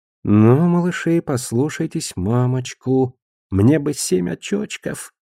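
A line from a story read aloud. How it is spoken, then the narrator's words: Cooing. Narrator (Russian): проворковала она над костями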